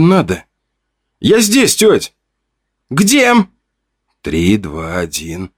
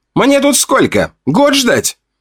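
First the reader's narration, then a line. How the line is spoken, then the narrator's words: Voice from below. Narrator (Russian): Раздалось снизу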